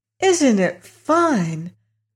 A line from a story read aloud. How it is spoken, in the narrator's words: cried Dorothy in a joyous voice